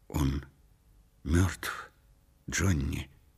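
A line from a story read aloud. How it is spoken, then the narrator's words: Quiet voice. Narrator (Russian): негромко произнесла Делла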